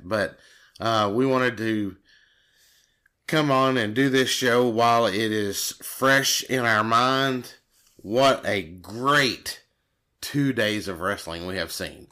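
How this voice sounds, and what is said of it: Hoarse voice from a cold. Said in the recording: “a little bit of hoarseness in my voice, I've got a little bit of cold going on, and I got a little bit of screaming going on”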